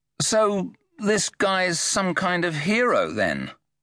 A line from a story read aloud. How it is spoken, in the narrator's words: Maggot tried to sound sneery, but secretly he was rather impressed